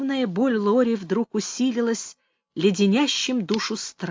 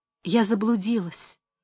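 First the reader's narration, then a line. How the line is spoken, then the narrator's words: Silent moan. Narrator (Russian): беззвучно застонала она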